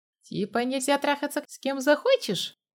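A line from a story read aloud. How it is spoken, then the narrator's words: Chuckling. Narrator (Russian): Костя хохотнул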